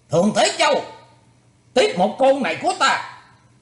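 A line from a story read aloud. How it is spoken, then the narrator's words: Monk shouting. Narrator (Vietnamese): Gã hòa thượng quát lên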